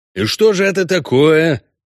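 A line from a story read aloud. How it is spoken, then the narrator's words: Slightly irritated, after pause. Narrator (Russian): Слегка раздраженно уточнил следователь после довольно длинной паузы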